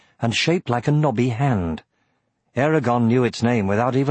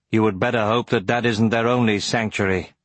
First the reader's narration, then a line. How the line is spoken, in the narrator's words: said Brom flatly